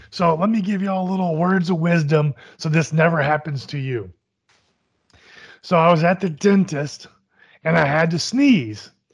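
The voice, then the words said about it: Terrible, mostly lost voice. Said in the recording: “not as bad as your voice, though ... My voice is terrible ... This is not a sick voice ... my voice is not here right now”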